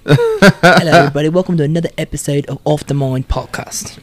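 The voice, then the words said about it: Put-on British accent. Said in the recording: “The British voice ... you started the British accent ... A little bit of UK in there.”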